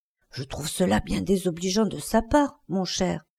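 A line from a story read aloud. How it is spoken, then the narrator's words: Whispered in ear. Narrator (French): lui souffla-t-elle à l'oreille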